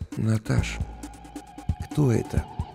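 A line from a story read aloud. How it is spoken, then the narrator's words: Barely audible question. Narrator (Russian): еле слышно спросил я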